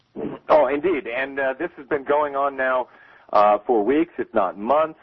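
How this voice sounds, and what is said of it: Polished broadcaster's radio voice. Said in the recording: “you got a great radio voice”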